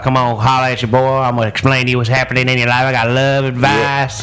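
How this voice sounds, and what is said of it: Put-on Southern country accent. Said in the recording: “Were you doing a country ... psychic? ... my country psychic”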